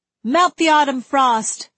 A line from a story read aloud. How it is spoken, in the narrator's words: another voice shouted